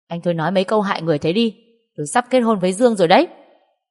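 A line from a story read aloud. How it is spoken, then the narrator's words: Shout. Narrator (Vietnamese): tôi mới quát lên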